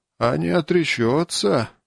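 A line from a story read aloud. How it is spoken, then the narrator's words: Heavy sigh. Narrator (Russian): Варас тяжело вздохнул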